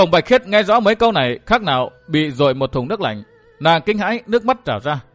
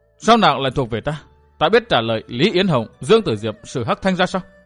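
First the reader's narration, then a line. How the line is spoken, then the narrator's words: Muttering. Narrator (Vietnamese): lẩm bẩm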